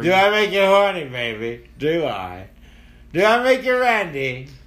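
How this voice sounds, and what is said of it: Austin Powers character impression. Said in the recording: “Austin Powers impersonation”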